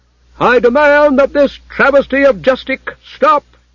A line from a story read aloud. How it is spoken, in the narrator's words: boomed the head clerk